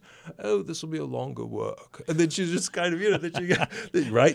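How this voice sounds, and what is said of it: Put-on British accent. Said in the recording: “Goes into his British accent.”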